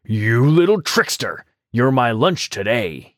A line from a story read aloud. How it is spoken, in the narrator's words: growled